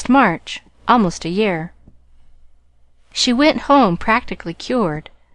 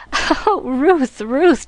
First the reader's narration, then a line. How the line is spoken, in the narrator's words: choked gleefully